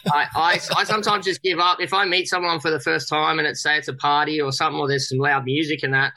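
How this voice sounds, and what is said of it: Thick Australian accent. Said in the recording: “I still have a really thick Aussie accent”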